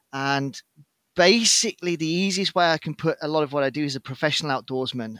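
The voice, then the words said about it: British English accent. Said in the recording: “As you can hear from my accent, however, I'm not Swedish. I was UK born and raised”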